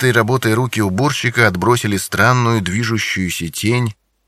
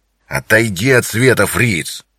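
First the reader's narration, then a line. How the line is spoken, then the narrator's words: Growling. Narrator (Russian): прорычал инспектор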